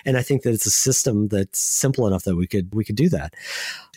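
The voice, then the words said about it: Excited voice. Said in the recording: “if you haven't heard in my voice, I'm really excited”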